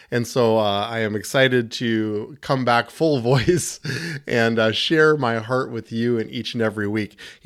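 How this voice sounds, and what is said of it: Slightly gravelly voice. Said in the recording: “My voice is still just a little gravelly”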